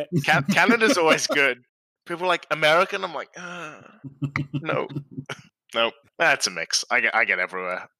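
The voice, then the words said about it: Mixed English accent, partly Australian. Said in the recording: “Australian accent ... call me American or Canadian ... It's just a mess of accents ... People have no idea what's going on with my accent”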